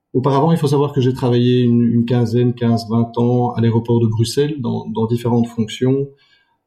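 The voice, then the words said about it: Slight Belgian French accent. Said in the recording (French): “ce petit accent belge euh, bien bien connu des, nordistes”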